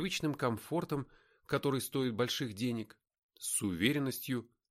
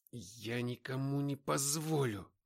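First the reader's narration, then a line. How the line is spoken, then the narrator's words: Breathless rasp. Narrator (Russian): Задыхаясь, прохрипел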